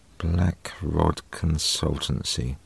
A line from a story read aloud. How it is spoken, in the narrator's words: murmured under her breath